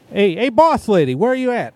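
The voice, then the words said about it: Put-on slightly Brooklyn accent. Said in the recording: “I don't know what accent that was. It was not Kel's, but it was close enough ... Went a little Brooklyn”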